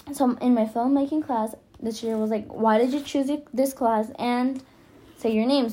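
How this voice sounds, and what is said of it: Non-native English accent. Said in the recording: “because of my accent”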